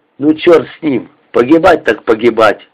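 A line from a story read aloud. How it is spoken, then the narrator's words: Angry. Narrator (Russian): зло говорит Кривенок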